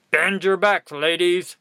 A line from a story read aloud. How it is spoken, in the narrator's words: barked the quartermaster